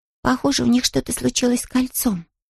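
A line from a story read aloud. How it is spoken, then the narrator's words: Whispered. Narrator (Russian): прошептала Джуди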